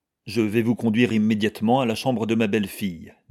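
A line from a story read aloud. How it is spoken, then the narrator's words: Plain. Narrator (French): dit-il au médecin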